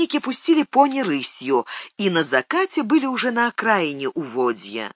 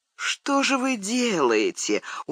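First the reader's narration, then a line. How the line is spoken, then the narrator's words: Dejected. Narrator (Russian): уныло сказал начальник отряда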